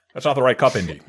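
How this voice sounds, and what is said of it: Bad Dan Aykroyd impression. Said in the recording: “bad Dan Aykroyd impression”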